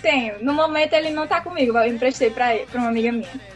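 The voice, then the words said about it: Charming regional Portuguese accent. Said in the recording (Portuguese): “Teu sotaque também tá ajudando ... tô achando o sotaque dela tão lindinho”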